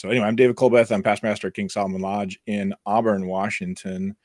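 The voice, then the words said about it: Hoarse voice from screaming. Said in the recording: “Apologize for my voice. We did quite a bit of screaming over the weekend”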